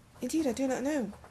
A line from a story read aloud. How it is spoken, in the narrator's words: answered the bird sadly